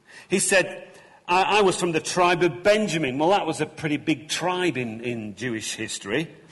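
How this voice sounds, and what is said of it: Thick Lancashire accent. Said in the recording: “I'm from Lancashire because I've got this thick accent that I can't get rid of”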